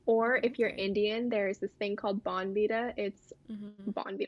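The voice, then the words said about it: Put-on American accent. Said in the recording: “I said that in a very American accent.”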